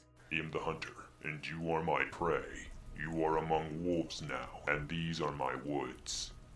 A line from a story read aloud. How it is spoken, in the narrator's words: It smiled at me with its blood-stained teeth and said in a demonic voice